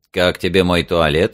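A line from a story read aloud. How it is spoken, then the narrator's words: Plain. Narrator (Russian): спросил его Эйвери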